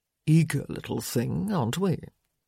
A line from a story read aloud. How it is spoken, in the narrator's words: leaning down to murmur